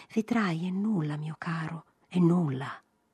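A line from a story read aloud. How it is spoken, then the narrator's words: Mild voice. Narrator (Italian): con la mite voce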